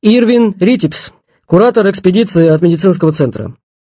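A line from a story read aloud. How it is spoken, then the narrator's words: Loud. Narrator (Russian): Репин громко сказал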